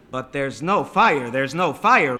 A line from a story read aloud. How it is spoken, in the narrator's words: Binder shouted